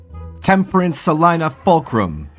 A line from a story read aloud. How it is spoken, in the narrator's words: her mother shouted from inside the house